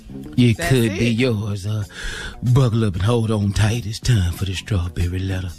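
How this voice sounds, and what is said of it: Sexy imitation of another person's voice. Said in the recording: “Is that your sexy Tommy imitation? ... Sound just like ... I couldn't tell the difference.”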